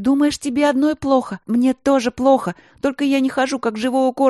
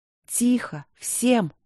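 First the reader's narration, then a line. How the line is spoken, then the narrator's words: Quiet. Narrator (Russian): негромко сказала Ангелина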